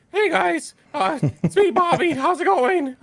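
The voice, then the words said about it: Morty-inspired strained character voice. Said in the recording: “do the Booby voice ... The OG classic voice ... I was basically inspired by Morty from Rick and Morty ... doing that voice actually did some straining on my voice”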